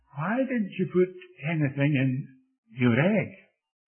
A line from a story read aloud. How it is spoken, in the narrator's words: The other boys were laughing at him